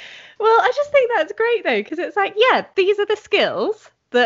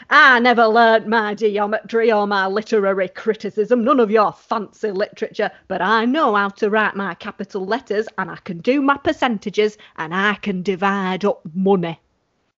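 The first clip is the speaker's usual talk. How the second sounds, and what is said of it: Put-on stereotyped accent. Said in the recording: “I always really want to do this in an accent, but that's also stereotyping.”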